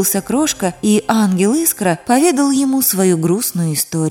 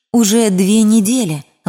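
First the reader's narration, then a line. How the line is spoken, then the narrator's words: Sighing. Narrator (Russian): вздохнул ангел Искра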